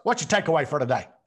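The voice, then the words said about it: Imitates another person's voice. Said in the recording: “pretty good Coach Burt impersonation”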